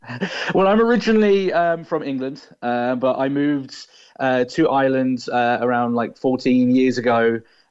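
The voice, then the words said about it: English accent, not Irish. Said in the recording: “That's not a Cork accent”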